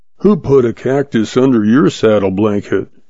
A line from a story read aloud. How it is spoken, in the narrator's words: the sheriff muttered sullenly